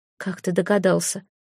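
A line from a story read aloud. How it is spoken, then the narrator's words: Grim smirk. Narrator (Russian): мрачно усмехнулась Элька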